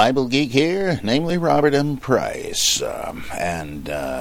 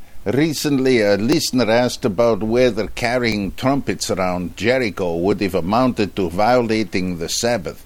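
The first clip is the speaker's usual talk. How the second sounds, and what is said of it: Put-on Dutch accent. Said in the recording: “requesting a Dutch accent, which I probably cannot do, but let's take a crack at it”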